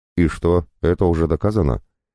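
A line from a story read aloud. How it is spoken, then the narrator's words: Calm clarifying. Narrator (Russian): спокойно уточняю я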